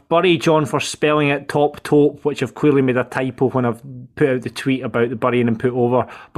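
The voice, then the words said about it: Strong accent, fast hard-to-follow speech. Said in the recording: “I'm just struggling to understand your accent. Could you slow down a little bit?”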